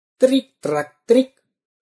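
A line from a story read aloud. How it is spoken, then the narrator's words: Cheerful rods speaking. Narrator (Russian): весело сказал прутья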